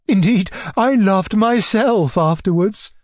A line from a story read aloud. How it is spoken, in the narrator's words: cried my uncle, laughing in a most good-natured way, and delighted that general cheerfulness was restored